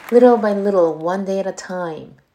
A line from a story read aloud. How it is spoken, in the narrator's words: she added kindly